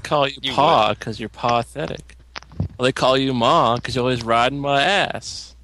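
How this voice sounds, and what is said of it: Canadian accent. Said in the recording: “He's from Canada. He can't say Ma for my. ... my own accent”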